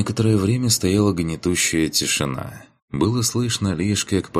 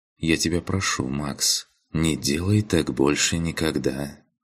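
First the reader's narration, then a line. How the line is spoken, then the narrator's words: Quiet. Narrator (Russian): тихо произнесла Алена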